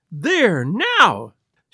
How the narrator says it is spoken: she cried

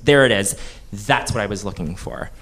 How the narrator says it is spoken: snaps and goes

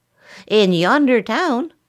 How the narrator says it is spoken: the leader cried

